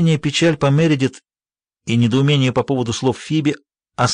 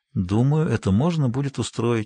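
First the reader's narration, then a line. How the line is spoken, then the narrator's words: Said softly. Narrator (Russian): мягко сказала она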